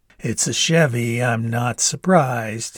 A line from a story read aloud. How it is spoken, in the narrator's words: said, chuckling